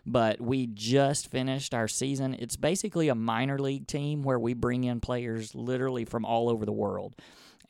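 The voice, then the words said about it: Hoarse, slightly worn voice. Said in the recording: “I'm a little hoarse and probably a little under the weather”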